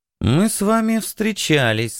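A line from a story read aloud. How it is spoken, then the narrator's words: Thoughtful. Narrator (Russian): сказала она задумчиво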